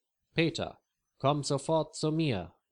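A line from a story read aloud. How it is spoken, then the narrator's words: Calls out. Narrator (German): ruft Leo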